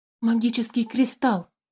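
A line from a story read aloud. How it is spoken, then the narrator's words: Frightened whisper. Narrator (Russian): испуганно зашептал Тимиук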